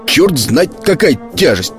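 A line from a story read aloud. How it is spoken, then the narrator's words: Grumbling. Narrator (Russian): ворчал всю дорогу флейта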